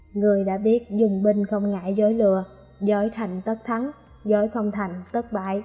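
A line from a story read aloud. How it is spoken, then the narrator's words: Cold scornful question. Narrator (Vietnamese): Sở Bất Tiệp lạnh lùng hừ một tiếng, hỏi lại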